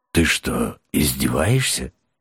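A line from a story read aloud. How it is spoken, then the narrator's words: Unexpectedly quiet, warm. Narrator (Russian): неожиданно тихо и даже как-то душевно уточнил голос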